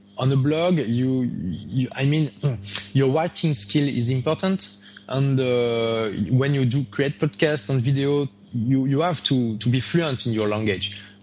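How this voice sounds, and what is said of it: Rich French accent in English. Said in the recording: “you have a fairly rich French accent for speaking English”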